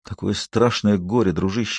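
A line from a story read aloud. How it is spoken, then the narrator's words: Hoarse voice. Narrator (Russian): хрипло сказал он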